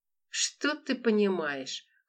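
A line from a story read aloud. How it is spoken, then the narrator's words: Guard's snort. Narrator (Russian): хмыкнул охранник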